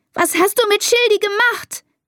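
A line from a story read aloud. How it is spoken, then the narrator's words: Screamed. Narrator (German): schreit sie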